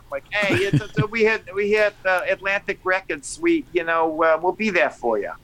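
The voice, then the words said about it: Put-on New York accent. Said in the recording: “What is that accent that you're doing? ... I'm trying to do my New York.”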